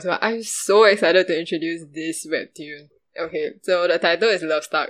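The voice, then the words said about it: Audibly excited, eager voice. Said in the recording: “I'm so excited. Okay, guys, I think you can tell from my voice”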